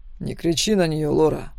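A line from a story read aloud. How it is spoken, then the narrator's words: Icy cold voice. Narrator (Russian): произнес ледяным голосом, в котором не было ни капли тепла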